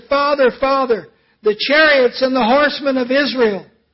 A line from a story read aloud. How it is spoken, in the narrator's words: cried out and he said